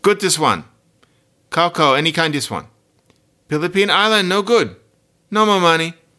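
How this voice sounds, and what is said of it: Imitated Filipino pidgin English speaker. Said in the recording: “do a random imitation. This is somebody from the Philippines.”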